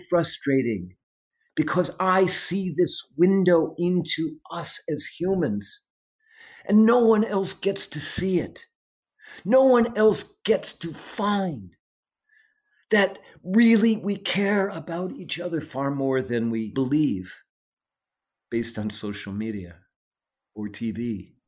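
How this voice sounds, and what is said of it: Passionate, emotionally charged speech. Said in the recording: “I get very passionate about this, as you can hear it in my voice ... the passion is certainly notable in your voice”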